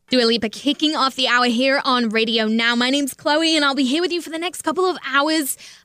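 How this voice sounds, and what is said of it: Distinctive accent. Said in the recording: “Your accent is so amazing”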